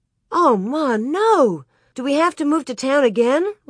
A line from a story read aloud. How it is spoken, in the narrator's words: Laura cried